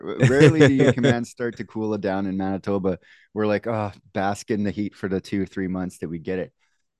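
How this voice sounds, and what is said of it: Canadian accent. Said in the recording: “there's my Canadian accent.”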